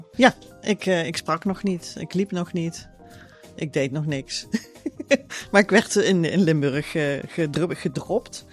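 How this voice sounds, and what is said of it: Limburg accent with soft G. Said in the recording (Dutch): “opgegroeid in Limburg ... daarom heb ik een zachte G”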